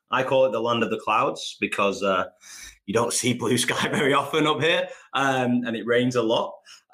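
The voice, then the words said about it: Northern English accent. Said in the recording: “you've got like a different accent to me. So you're like a northern accent, and I'm like a sort of southern London accent”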